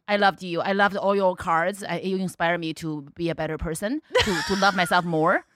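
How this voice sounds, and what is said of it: Non-native English accent. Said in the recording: “I don't even speak English ... your accent's fake ... My accent is real”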